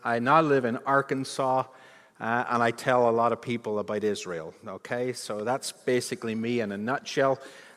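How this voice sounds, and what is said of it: Northern Irish accent. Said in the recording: “my accent is changing a little bit, but as you can tell from my accent, it's not from here. It actually goes all the way back to Northern Ireland.”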